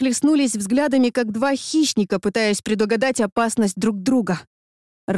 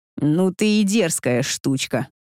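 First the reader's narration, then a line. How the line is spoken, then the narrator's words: Smirking snort. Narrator (Russian): Хмыкнул он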